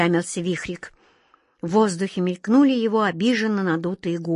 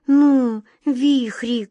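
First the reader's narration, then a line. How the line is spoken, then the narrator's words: Pleading. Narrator (Russian): взмолилась глазастик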